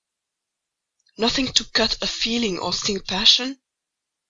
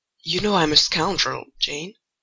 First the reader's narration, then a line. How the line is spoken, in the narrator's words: he inquired wistfully